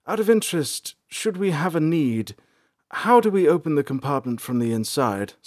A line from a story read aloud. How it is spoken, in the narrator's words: Salanth inquired nervously